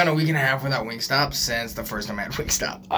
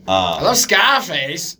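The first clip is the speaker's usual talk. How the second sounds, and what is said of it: Imitates another person's voice. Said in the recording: “Is that a good Joe List impression?”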